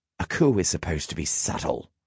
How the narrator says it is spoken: he hissed

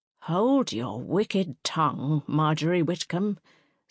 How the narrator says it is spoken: said a quavery voice behind Francine

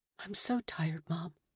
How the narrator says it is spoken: Lily whispered

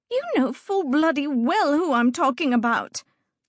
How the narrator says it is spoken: Lucida snapped

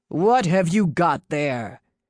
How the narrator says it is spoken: The leader responded with a wicked laugh

